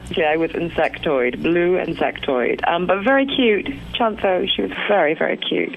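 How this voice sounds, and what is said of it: British accent, Queen's English. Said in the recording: “you speak with a British accent ... I suppose I speak the Queen's English”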